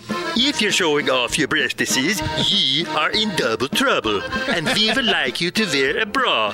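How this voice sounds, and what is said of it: Put-on accent. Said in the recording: “You like that accent?”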